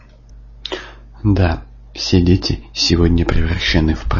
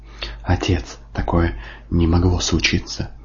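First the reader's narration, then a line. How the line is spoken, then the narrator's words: Whispered. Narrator (Russian): шептал он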